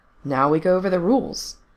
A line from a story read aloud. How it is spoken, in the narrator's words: answered their de facto leader, cheerfully but firmly